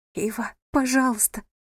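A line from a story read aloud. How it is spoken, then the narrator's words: Trembling voice. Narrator (Russian): дрожащим голосом произнесла она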